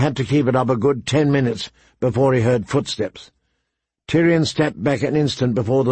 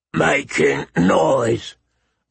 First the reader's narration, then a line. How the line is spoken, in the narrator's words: Maud growled, with blood in his eyes